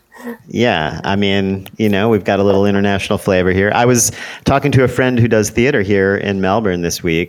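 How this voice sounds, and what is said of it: Deep rounded American-accented voice. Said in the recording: “nicely rounded bass tonal voice ... the American accent”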